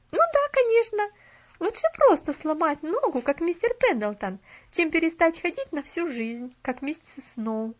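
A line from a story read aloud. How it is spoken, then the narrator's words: Cheerful girl. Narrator (Russian): Весело проговорила девочка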